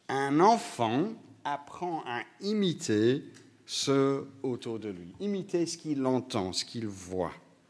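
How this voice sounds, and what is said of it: Slight Belgian-British accent. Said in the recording (French): “un petit accent belge-britannique”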